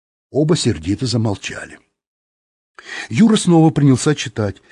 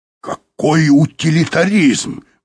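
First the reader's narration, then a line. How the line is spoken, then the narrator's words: Exclamation. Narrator (Russian): воскликнул Юрковский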